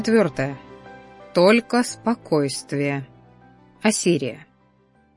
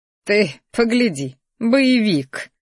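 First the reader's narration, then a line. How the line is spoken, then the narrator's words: Grumbling under breath. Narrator (Russian): буркнула она себе под нос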